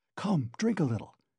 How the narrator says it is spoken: he whispered

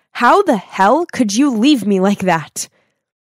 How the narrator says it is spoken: angrily asked

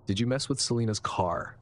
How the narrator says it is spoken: asked firmly

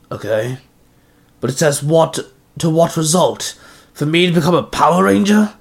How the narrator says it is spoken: Zenarku growled

